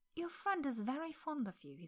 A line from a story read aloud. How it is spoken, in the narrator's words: he said gently